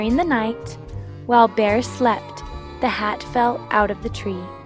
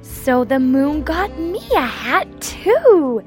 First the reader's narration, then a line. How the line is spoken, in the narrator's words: exclaimed Bear